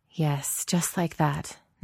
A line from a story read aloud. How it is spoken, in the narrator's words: Natasha murmurs